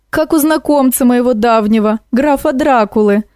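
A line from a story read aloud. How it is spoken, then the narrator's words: Pleased laughter. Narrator (Russian): довольно засмеялась Баба-Яга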